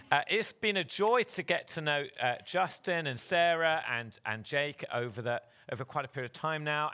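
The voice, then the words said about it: English accent. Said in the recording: “You're the guys with a funny accent. My accent sounds perfectly normal. ... he has an English accent”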